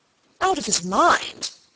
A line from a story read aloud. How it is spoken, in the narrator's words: cried Sir Michael